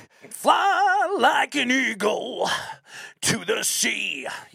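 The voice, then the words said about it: Sung imitation with metal twist. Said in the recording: “impersonation horrible ... you gave it a little a uh, little bit of a metal twist there”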